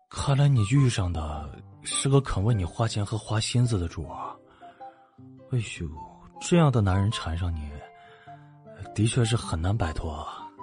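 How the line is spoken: Tutting in admiration. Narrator (Chinese): 韦胜、欧若野还在房间里啧啧的感叹

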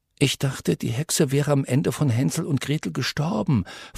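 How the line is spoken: Whispered. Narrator (German): flüsterte Alex Connor zu

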